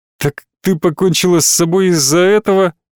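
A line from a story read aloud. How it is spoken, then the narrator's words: Ironic, near laughter. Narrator (Russian): Я был готов иронично захохотать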